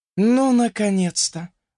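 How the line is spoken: Relieved sigh. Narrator (Russian): вздохнула Амели

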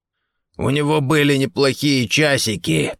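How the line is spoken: Hoarse rasp. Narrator (Russian): прохрипел Гордон

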